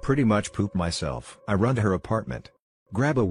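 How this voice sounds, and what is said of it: Usual voice. Nothing is said of it.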